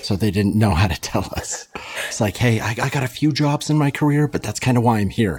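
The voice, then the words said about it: Whispering. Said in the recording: “I don't know why I'm whispering like they're not going to hear me.”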